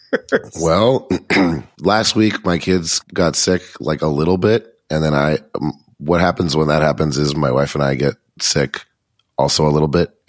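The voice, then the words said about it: Raspy, gravelly smoker-like voice. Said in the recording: “why do you sound like a man who's been smoking for 75 years?”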